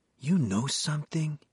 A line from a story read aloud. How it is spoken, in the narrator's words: Ramos said to Carmen, his voice filled with wonder